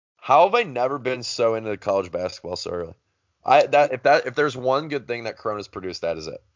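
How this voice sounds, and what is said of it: Strained, fading voice. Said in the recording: “My voice is going. ... Can you tell my voice is going right now? ... Yeah. Yep.”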